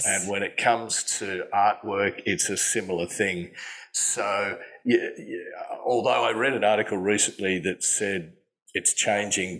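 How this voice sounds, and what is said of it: Slightly hoarse voice. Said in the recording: “a little bit hoarse today is because I just on the side playing a rockabilly band ... I'm a little bit hoarse this morning”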